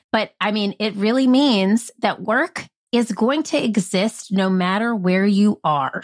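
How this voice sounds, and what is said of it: Nasal Southern-Midwestern twang. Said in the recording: “I'm half Southern, half Midwestern. That's why I have this nasal twang. I say I'm like Fran Drescher on a farm”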